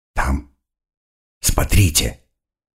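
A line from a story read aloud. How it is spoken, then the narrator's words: Whispering. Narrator (Russian): прошептал Феллон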